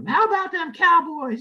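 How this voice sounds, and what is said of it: Jimmy Johnson impression. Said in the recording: “good impression”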